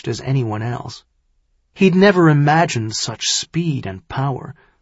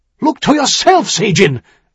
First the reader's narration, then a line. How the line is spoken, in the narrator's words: he barked